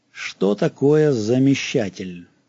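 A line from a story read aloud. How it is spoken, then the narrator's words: Stern question. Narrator (Russian): строго спросил он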